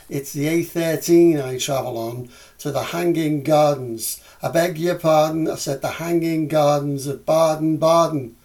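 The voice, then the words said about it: Scouse accent. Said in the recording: “the Scouse accent. I'm sorry, but it's my own. ... it's just as good in Scouse as it is in Mancunian”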